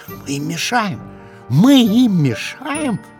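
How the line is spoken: Upset whispering. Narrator (Russian): шептали огорченные листики бедной осины

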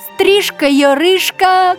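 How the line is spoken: Shout. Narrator (Russian): крикнула Бельская

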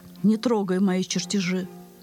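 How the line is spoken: Calm. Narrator (Russian): Архимед ему спокойно так

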